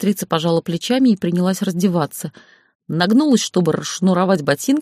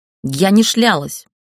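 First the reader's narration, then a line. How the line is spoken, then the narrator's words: Snapping female voice. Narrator (Russian): огрызнулась та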